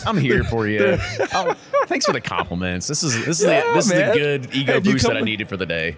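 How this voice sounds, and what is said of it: Smooth, silky radio voice. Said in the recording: “Your radio voice, oh man, let me tell you something. Yeah, it's some good stuff. ... You got that nice silky radio voice.”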